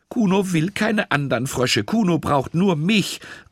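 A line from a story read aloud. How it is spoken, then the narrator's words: Indignant call. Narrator (German): rief Lisa empört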